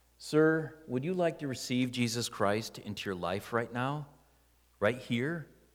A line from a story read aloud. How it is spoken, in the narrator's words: said softly